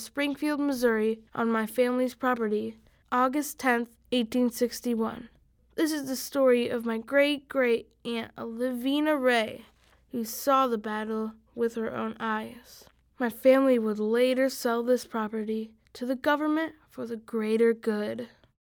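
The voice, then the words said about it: Put-on Southern accent. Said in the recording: “You get bonus points, by the way, for the Southern accent.”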